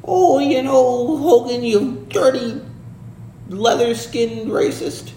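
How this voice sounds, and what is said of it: Rowdy Piper impression, old-man voice. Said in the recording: “I wish we could do a Rowdy Piper impression. ... He's like an old man, kind of.”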